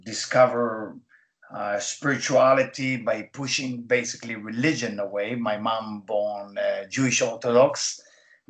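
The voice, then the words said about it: Israeli accent. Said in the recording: “as you can hear my accent, I was born in Israel”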